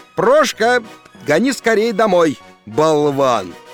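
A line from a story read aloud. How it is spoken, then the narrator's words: Shouted. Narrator (Russian): крикнул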